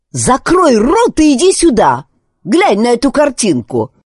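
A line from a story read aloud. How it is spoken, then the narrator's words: Shouted back, mildly annoyed woman. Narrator (Russian): прокричала в ответ женщина, не слишком разозлившись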